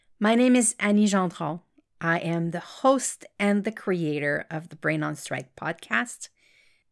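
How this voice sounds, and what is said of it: Slight French-Canadian accent. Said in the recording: “I am French-Canadian. That's why you will hear a slight accent in my voice.”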